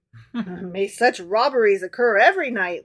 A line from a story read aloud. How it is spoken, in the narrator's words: laughed the emperor